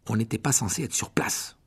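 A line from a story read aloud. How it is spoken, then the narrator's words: Murmur. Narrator (French): murmura Harry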